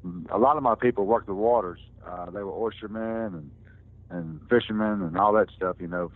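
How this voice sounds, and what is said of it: Southern mountain drawl. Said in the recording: “I'm the only one in my family that sounds like this, so I was raised in the mountains ... I'm the only one in my family that talks like this ... they don't have that accent, that drawl like I have ... I kind of sound like a banjo string when I talk”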